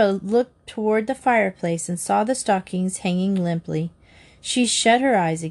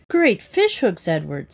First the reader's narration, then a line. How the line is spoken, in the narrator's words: he cried